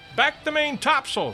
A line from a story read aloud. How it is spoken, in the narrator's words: shouted the captain